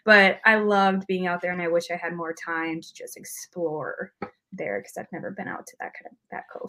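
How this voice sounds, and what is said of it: Heavy, strong Midwest accent. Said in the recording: “Midwest accent. So there's, it's heavy and strong”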